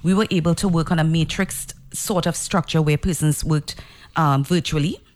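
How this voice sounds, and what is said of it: Trinidadian twang accent. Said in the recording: “love that Trudy Twang ... No, we like the Trudy Twang.”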